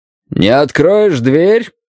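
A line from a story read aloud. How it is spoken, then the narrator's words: Loud, through a door. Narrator (Russian): сказал он громко, чтобы мне было слышно сквозь дерево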